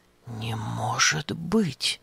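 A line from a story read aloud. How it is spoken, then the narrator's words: Puzzled whisper. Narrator (Russian): озадаченно прошептал Епафраз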